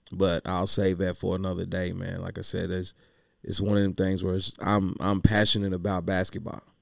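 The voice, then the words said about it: Hoarse, strained voice. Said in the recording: “lost my voice because I was yelling all day”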